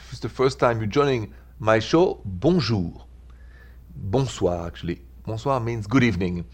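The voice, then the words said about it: French accent. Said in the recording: “The accent is French.”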